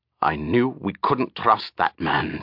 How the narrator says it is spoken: Tagwin muttered finally

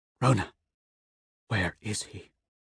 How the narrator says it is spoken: I whisper

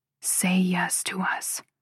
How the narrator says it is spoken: Noah whispers against my mouth

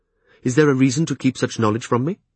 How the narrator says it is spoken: The prince replied for me, more sharply than I would have expected

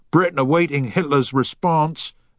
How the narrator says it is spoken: at the top of his voice

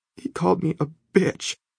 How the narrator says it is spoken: she says between her sobs

